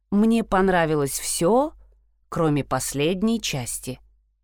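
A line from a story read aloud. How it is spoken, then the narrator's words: Plain. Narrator (Russian): сказал он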